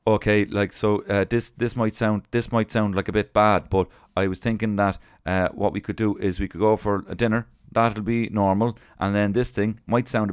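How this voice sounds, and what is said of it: Imitates a regional English accent. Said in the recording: “he's got a brilliant accent. I don't know what county he's from”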